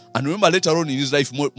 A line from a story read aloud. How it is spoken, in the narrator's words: Moses pleaded